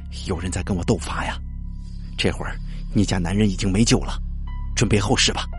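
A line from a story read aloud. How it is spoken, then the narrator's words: Breathless. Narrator (Chinese): 李法官大口喘了喘气，说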